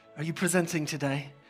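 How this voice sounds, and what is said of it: Weak put-on British accent. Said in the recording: “British accent ... I'm probably not doing a great British accent.”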